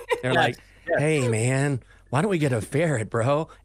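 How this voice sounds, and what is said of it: Imitates a stoned guy's voice. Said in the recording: “they were always high, too... You nailed that impression.”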